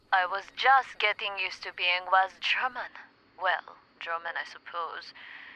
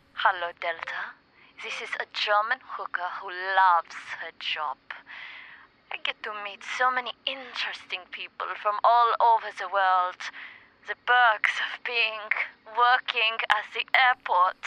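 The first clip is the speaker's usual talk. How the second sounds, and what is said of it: Put-on German accent. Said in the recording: “drop the German accent”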